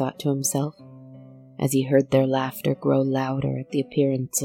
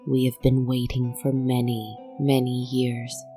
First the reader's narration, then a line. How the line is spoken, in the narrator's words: she had said